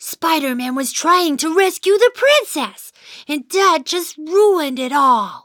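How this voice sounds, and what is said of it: Usual voice. Nothing is said of it.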